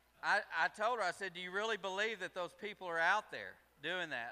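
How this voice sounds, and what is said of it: Slight redneck accent. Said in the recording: “I'm bad redneck... I may have a little bit of an accent”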